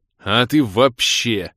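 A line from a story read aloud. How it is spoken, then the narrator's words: Growling. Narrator (Russian): рыкнул я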